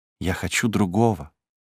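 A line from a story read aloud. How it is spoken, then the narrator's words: Low voice. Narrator (Russian): ответила она вполголоса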